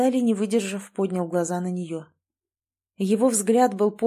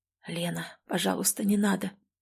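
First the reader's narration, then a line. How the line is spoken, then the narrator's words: Whisper. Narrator (Russian): прошептал он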